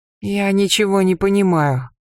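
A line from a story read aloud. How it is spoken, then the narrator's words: Weak plaintive voice. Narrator (Russian): слабым жалобным голосом сказал Яхмос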